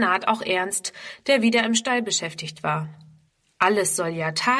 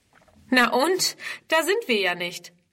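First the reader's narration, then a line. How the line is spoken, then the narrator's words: Little girl laughing mockingly. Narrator (German): lacht die Kleine ihren Bruder aus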